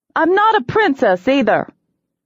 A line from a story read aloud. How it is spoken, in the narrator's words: I snapped